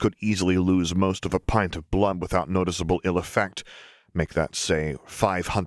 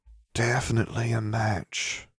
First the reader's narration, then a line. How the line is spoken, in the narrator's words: whispered Samphias